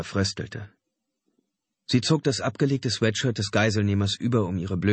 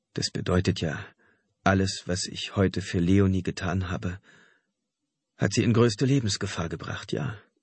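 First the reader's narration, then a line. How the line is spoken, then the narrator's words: Stammered. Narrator (German): stammelte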